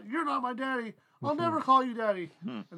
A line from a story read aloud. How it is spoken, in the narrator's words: He blurts out